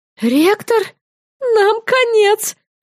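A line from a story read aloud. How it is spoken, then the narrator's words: Groaning. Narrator (Russian): простонала я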